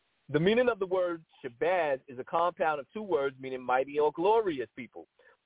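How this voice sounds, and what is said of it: Usual voice. Nothing is said of it.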